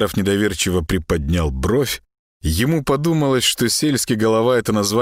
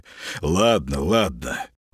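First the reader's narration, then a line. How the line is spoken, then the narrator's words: Short laugh. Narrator (Russian): Молчан коротко хохотнул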